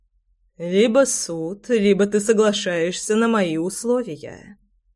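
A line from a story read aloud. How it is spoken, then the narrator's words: Smug purring. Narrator (Russian): мурлыкал непробиваемый идиот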